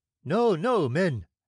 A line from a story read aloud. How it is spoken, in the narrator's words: exclaimed the captain, who was now more settled in his nerves